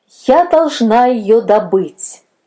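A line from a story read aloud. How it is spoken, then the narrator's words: Loud repetition. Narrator (Russian): повторяла она громко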